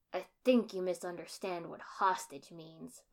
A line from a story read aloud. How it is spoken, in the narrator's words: growled